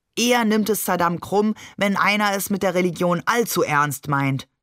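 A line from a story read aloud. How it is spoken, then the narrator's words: Plain. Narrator (German): sagte Onkel Ali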